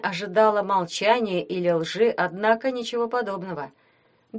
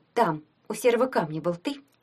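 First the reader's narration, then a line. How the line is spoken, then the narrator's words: Sharp question. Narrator (Russian): спросила она резко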